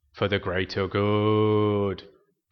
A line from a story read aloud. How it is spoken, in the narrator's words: the other philosophers intoned